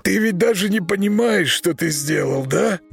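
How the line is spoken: Hoarse. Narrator (Russian): хрипло сказал

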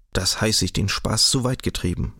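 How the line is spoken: Indignant murmur. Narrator (German): murmelte entrüstet

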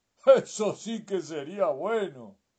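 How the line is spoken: Miller's exclamation. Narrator (Spanish): exclamó el molinero

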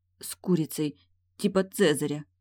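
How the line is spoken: Sobbing. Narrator (Russian): всхлипываю

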